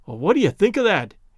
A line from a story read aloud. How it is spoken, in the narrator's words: exclaimed Tom